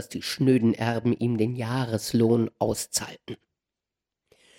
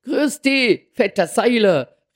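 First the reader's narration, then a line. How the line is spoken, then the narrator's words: Called out. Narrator (German): rief der Kurt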